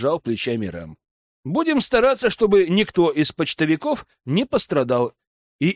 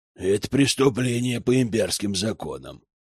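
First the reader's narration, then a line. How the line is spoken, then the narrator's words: Grumble. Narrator (Russian): проворчал Йорин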